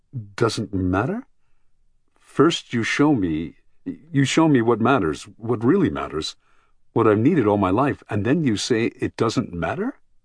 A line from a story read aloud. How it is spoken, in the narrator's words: said, stammering, almost choking